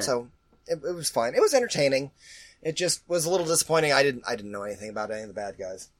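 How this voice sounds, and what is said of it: Sick-sounding voice. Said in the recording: “this illness that you can hear in my voice”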